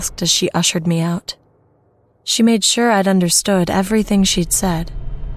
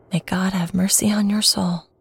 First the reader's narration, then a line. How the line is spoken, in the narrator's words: she whispered